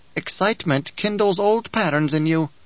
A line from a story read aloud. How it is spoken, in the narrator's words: Bijah said